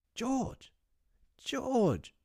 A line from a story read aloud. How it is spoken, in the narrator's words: she cried, when she could speak